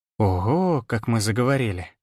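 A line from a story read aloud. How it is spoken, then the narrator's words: Drawled. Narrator (Russian): протянула Виола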